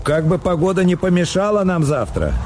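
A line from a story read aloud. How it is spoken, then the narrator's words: Shouted. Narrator (Russian): фон Корен крикнул ему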